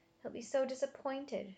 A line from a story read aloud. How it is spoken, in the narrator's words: she muttered